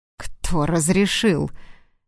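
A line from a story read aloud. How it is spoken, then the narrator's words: Restrained displeasure, through teeth. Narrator (Russian): сдерживая недовольство, процедил сквозь зубы Платон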